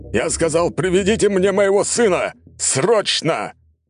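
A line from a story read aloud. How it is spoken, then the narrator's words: Wild yelling. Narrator (Russian): орал не своим голосом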